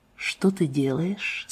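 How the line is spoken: Quiet question. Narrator (Russian): спросил Дженнингс тихо

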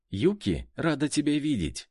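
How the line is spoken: Giggling cheerful girl. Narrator (Russian): выдала волейболистка, мило хихикнув

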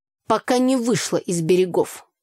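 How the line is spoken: Snorting reply. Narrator (Russian): хмыкнул в ответ Митя

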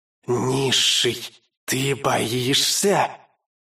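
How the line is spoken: Loud whisper. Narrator (Russian): громкий шепот

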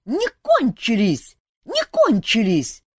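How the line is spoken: Shrill squeal. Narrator (Russian): завизжала нахалка

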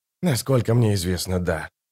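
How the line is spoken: Muttered. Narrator (Russian): пробормотал Рад Престол Тени

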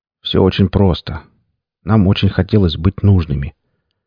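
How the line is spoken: Quiet. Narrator (Russian): он тихо произнес

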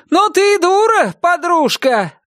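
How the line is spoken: Shouted reply. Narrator (Russian): прокричала в ответ

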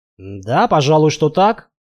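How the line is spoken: Confused mumble. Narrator (Russian): растерянно пробормотал

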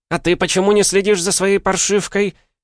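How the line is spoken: Attacking, stranger. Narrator (Russian): Накинулась незнакомка на тетю

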